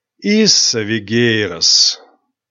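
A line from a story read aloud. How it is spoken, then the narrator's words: Tired. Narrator (Russian): устало произнес директор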